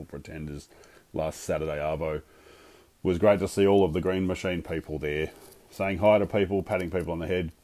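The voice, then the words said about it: Strained voice from screaming. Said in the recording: “My voice is a little bit even more funkier than usual at the moment because I was ... screaming for our boys”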